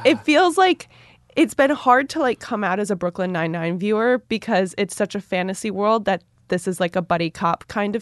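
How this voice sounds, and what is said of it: Stuffy, sick-sounding voice. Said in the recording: “as I'm sure you and all of our listeners can tell, I have a cold.”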